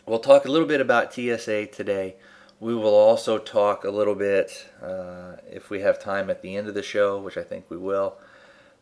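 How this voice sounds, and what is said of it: Voice off from a cold, heavy breathing. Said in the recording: “I've had a little bit of a cold... my voice may sound a little off. I may be breathing a little heavy”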